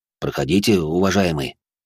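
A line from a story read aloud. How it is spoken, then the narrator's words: Mumbled. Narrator (Russian): пробормотал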